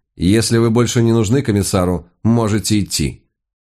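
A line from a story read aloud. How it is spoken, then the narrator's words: Dry, curt. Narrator (Russian): та сухо сказала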